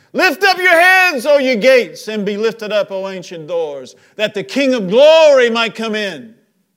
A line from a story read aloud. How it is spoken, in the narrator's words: He shouts out again